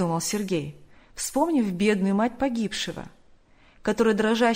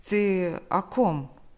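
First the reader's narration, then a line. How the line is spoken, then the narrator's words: Stammering question. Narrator (Russian): он, заикаясь, спросил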